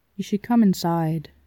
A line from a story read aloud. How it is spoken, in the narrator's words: it said quietly